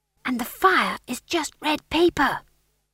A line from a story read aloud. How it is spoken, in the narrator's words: whispered McGrath